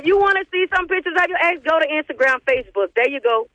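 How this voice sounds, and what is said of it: Speaks with a noticeable accent. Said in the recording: “I know you hear that accent.”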